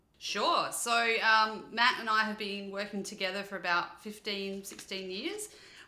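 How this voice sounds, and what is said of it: Australian accent. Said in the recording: “We're originally from a little town called Adelaide in Australia, which is the accent you're hearing”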